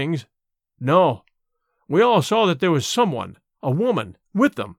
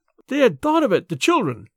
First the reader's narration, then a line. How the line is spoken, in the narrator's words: half sobbed Mrs